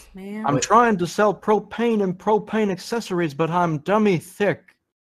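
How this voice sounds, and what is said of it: Hank Hill impression. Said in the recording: “Damn, Hank. ... A good impression.”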